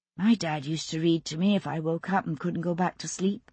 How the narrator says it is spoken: she said softly

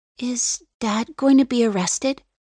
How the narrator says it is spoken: Ada asks in a worried voice

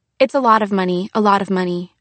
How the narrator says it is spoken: I stammered

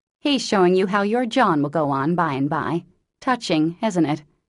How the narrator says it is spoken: answered Jo scornfully

